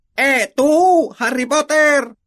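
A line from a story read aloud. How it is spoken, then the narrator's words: Grumpy dwarf shouting. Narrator (Spanish): gritó un enano de aspecto particularmente malhumorado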